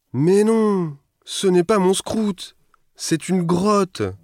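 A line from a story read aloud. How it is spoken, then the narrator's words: Desperate cry. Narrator (French): s'écrie Scrut désespéré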